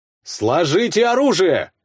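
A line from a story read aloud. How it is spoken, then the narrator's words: Shout. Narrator (Russian): крикнул я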